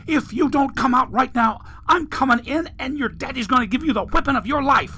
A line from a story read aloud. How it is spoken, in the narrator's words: The woman's voice yelled